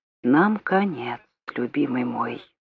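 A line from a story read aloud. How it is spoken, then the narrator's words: Whisper. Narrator (Russian): Урсула прошептала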